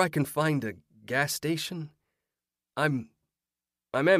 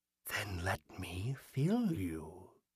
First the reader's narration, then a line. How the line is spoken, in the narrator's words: the figure whispered